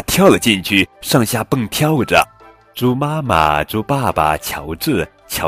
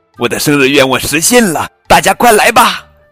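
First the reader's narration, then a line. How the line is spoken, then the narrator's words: Calling out. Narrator (Chinese): 佩奇叫了出来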